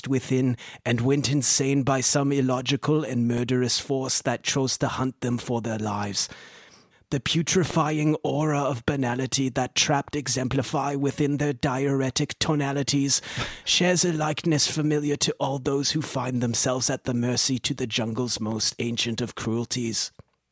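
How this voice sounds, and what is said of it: Bad Werner Herzog impression. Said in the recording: “bad impression, Werner Herzog”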